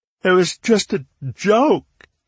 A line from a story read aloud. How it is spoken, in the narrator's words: he sobbed